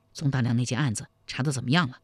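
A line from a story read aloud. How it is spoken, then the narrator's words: Low-voiced question. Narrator (Chinese): 又低声问道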